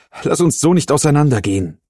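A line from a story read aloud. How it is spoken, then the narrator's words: Calling after someone. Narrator (German): rief er ihm hinterher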